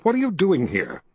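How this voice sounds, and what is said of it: Disapproving, scolding tone. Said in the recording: “in a disapproving voice”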